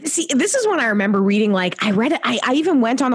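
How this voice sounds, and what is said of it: Usual voice. Nothing is said of it.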